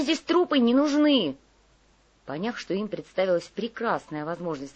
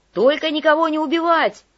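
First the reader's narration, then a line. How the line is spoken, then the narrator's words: Shouted, messenger. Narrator (Russian): крикнул сориентировавшийся гонцей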